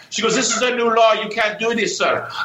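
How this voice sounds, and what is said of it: Attempted Puerto Rican accent, sounds Chinese. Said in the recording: “That's a hell of a Chinese accent right there. ... I was trying to do Puerto Rican”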